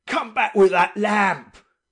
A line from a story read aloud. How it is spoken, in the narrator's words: roared the captain again